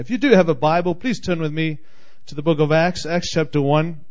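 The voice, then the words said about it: Speaks with a noticeable accent. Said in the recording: “Maybe it's the accent. I'm just thinking it's the accent”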